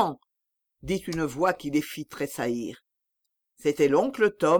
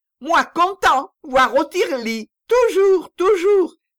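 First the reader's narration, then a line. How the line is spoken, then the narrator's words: Shouting. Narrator (French): cria Jacquet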